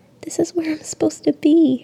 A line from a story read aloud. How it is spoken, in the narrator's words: she cries